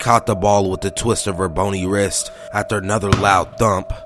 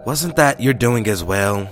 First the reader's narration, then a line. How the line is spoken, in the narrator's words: I sighed